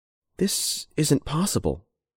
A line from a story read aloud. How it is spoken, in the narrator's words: said Rebecca quietly